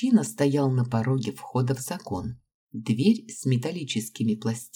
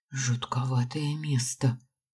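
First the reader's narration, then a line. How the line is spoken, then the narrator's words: Whisper. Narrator (Russian): прошептала я Аманте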